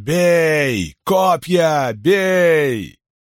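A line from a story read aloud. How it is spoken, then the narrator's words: Gasping roar across field. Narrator (Russian): Ксантип хватил открытым ртом воздух и проревел на все поле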